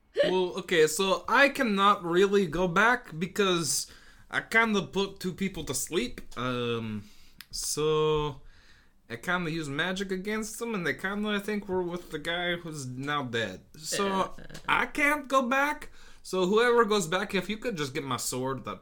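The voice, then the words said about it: Unplaceable put-on character accent. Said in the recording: “What accent am I using right now? ... what earth is he from exactly? ... He's just picked up accents everywhere.”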